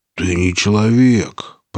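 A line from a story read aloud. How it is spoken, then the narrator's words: Annoyed grumble. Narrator (Russian): проворчал раздосадованный сталкер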